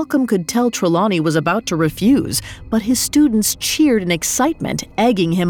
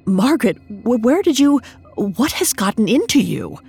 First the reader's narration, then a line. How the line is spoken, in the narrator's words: Trelawney sputtered